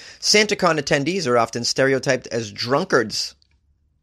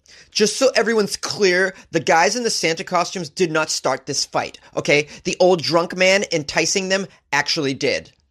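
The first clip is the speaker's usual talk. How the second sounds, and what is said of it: Impression of annoying social media poster. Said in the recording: “That was my impression of an annoying person on social media.”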